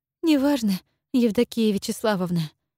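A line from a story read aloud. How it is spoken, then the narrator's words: Young woman's sigh. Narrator (Russian): вздохнула девушка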